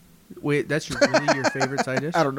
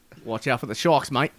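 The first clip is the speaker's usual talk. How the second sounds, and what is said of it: Put-on Australian accent. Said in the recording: “I'm going to get the accent down... You turned Australian?... Yeah, you turned Australian, bro. That wasn't you.”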